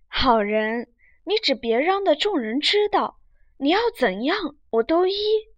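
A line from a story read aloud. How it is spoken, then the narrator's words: Laughing. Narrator (Chinese): 秦钟笑道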